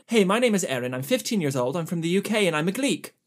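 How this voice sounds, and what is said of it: Generic British accent. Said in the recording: “I tried to read part of this in a British accent ... I know that there are regional accents in England. I am not smart enough to be able to do them. So I'm going to do generic British ... British”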